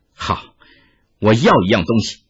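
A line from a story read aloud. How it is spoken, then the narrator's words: Sudden, after laughing. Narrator (Chinese): 哈哈一笑之后，忽然说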